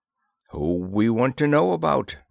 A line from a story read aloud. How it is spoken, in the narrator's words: growled Sergeant Madden